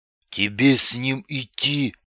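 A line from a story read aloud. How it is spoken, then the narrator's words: Whispered in ear. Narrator (Russian): шепнул Бибик на ухо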